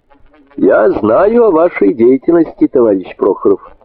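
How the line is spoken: Plain. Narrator (Russian): сказал Голубинь

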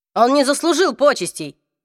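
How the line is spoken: Barking. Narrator (Russian): рявкнул Себастьян

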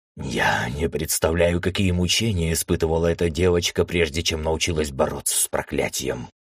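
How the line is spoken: Mentor's whisper. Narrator (Russian): прошептал наставник

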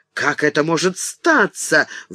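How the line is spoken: Exclamation. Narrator (Russian): воскликнула

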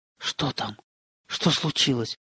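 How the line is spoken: Whisper, servant. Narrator (Russian): шептали губы слуги

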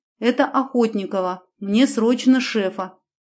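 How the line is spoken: Sharp, feigned breathless excitement. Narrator (Russian): резко сказала я в трубку, изображая, что задыхаюсь от волнения

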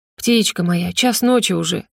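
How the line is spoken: Gentle coaxing. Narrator (Russian): уговаривает ласково

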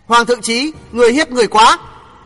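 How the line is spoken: Loud reproach. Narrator (Vietnamese): Đinh Hồng lớn tiếng trách

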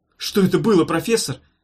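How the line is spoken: Shout. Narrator (Russian): крикнул Йогурт

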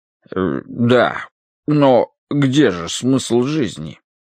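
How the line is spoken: Uncertain question. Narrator (Russian): неуверенно спросил дядюшка Брю

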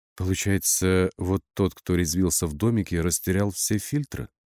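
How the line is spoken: Plain. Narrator (Russian): спросила Александра

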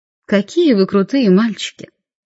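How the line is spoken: Purring. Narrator (Russian): промурлыкала я

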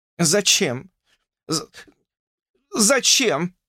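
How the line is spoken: Stammering. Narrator (Russian): заикалась она

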